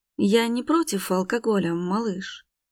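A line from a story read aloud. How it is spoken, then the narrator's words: Calm voice. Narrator (Russian): говорит спокойным голосом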